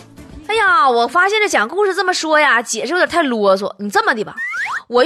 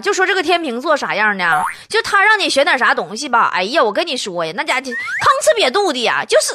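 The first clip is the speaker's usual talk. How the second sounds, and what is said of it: Put-on Northeastern Chinese dialect. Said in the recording (Chinese): “这个简单易懂、言简意赅的东北话给你们解释一下吧啊...用东北话来说呢”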